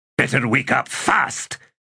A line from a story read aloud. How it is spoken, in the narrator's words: Fiddler snapped